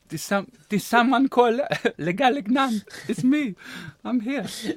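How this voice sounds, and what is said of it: Clumsy French accent, sliding Spanish. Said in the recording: “She'd be French ... But that's a bit Spanish accent ... I'm not the best with accents.”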